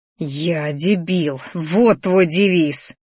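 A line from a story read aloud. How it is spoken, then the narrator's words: Angry hiss. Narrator (Russian): Злобно зашипела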